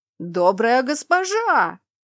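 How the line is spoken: Wailing like a siren. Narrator (Russian): Сиреной взвыл он

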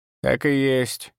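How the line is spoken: Creaky old woman's voice. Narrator (Russian): проскрипела старуха

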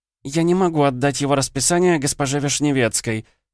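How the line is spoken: Squeaky voice. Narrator (Russian): пискнула Ольга

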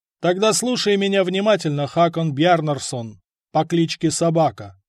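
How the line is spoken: Calm. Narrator (Russian): спокойно сказал жупан

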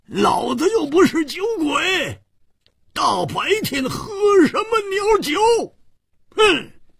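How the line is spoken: Loud resentful roar. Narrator (Chinese): 胡铁花更是满肚子的怨气没处发，跳起来大声地吼叫着

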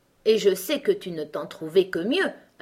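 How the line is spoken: Queen, triumphant tone. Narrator (French): affirma la reine d'un ton de triomphe

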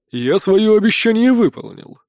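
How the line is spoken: Interrupting. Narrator (Russian): перебил принц

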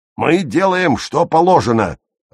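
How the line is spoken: Growled. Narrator (Russian): рыкнул Герр Таубер

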